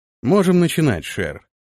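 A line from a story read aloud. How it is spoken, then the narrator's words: Calm. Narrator (Russian): спокойно произнес Антон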